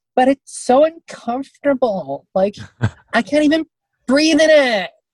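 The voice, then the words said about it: Impression of a white woman. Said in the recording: “You do a really great impression of white women.”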